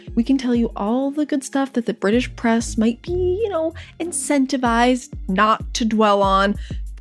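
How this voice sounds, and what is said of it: American accent. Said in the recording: “As you can probably tell from our accents, we are American.”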